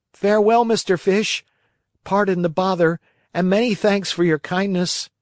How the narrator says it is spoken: the Marionette, scared to death, he turned to the dolphin and said

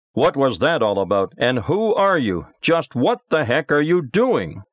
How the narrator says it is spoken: shouting

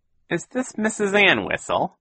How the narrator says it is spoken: a wheezy voice asked

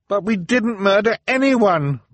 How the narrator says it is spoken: Violet cried

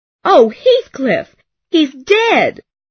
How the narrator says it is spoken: She screamed

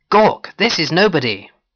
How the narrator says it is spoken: I shouted beside Gawk's head

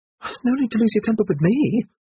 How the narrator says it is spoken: squeaked Miss Lee

